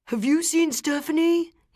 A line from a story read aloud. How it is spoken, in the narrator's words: yells